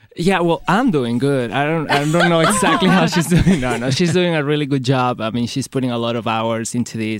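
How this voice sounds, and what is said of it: Foreign-accented English, possibly Latin American. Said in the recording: “his accent ... I want to learn how to speak English with that accent ... sound like you're from Latin America”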